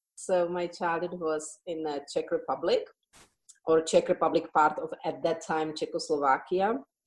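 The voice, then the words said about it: Non-native Czech accent in English. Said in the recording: “I think you can hear in my accent that it's not originally English.”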